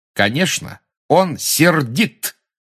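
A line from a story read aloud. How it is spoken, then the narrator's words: Clear and loud. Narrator (Russian): отчетливо и громко сказала Гермиона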